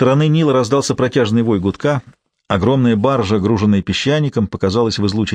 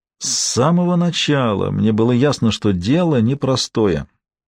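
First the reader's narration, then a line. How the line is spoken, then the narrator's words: Muffled near-whisper. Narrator (Russian): сказал он приглушенным, чуть громче шепота голосом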